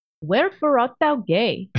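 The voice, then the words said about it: Ugandan accent, old English phrasing. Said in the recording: “old English sounder in Ugandan accent.”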